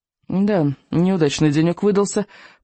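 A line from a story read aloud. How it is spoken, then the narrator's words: Groaned while climbing out. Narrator (Russian): простонал рыбий ног, выбираясь на берег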